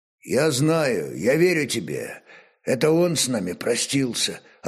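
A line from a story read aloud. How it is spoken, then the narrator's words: Commander's suddenly hoarse voice. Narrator (Russian): ответил воевода вдруг осипшим голосом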